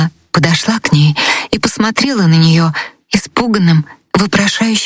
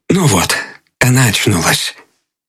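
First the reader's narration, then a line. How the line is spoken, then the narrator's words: Quiet. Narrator (Russian): Он сказал тихонько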